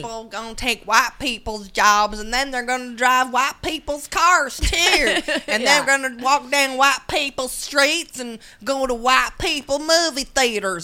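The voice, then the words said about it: Put-on Southern accent. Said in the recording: “I'm sorry I'm using a southern accent”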